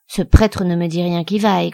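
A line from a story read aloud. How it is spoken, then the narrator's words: Grumbling woman. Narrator (French): grogna la femme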